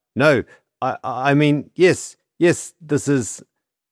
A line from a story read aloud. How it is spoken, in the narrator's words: Struck by the small fortune in his hands, Alexei stammered out